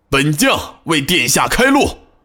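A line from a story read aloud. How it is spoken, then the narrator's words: Loud shout. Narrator (Chinese): 杨硕大声喊道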